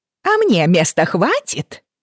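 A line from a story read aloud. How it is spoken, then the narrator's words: Shameless shouted reply. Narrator (Russian): бесстыдно прокричала в ответ одна из торговок рыбой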